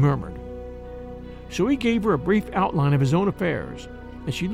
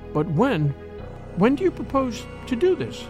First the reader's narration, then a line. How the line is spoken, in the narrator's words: asked, in an unsteady voice